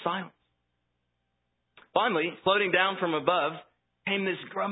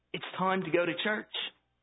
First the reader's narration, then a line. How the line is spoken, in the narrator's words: Mother heaved a sigh and said